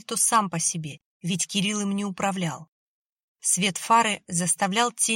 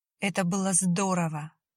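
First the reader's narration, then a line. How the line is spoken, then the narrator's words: Breathless exhale. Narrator (Russian): выдохнула она ему в лицо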